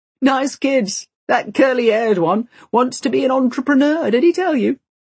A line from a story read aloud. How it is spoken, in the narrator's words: He laughs